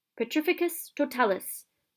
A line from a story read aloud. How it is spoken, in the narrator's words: she cried